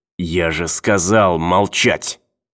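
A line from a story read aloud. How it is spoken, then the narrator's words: Hissing. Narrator (Russian): снова прошипел он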